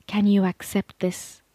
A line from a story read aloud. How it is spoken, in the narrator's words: the void whispered